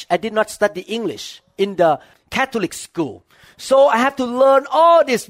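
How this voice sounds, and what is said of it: Strong non-native English accent. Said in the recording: “My accent was so bad ... So I have to change all of my accent to learn new English for me”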